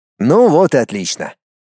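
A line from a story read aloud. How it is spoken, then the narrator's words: Snorting. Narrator (Russian): хмыкнул он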